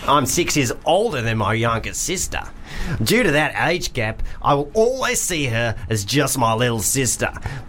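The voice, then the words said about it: Put-on Australian accent. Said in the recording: “Do you want a Kiwi accent? ... I'm just going to do Australian because I don't really know what the difference is.”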